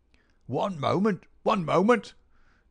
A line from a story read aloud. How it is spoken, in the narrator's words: cried a querulous voice, a queer little old man